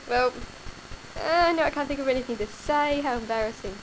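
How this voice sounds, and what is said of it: Australian accent. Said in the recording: “You can hear my great accent ... I should say something really Australian”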